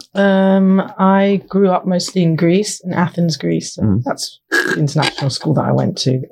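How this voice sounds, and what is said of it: Mixed international accent. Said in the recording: “my accent is a little bit of everything”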